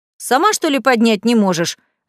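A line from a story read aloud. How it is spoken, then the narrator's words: Snapped. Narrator (Russian): огрызнулся Василий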